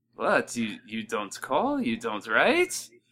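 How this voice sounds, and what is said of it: Imitated Jewish mother voice. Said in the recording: “Great Jewish mom impression.”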